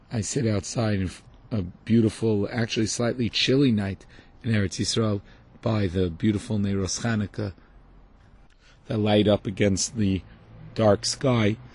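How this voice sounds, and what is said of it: Hoarse voice. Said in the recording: “So that's why I'm hoarse.”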